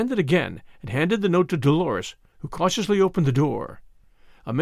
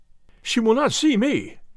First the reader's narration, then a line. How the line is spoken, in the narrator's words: cried Ferguson